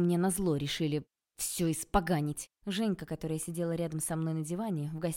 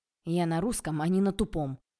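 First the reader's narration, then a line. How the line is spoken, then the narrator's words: Irritated snort. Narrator (Russian): Я раздраженно фыркнула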